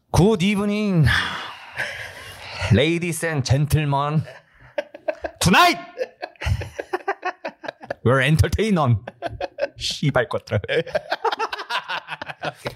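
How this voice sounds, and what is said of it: Joker character voice, Korean accent. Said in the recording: “like the Joker, you could do that in a Korean accent... Could you do that in a Korean accent? Korean Joker... Accent.”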